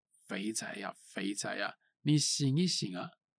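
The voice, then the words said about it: Soft, quiet calling voice. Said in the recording (Chinese): “但是也不能大声叫，就只能这样小声的这样叫”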